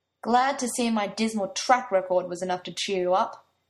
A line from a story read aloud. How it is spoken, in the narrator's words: he said bitterly, but the words had no venom to them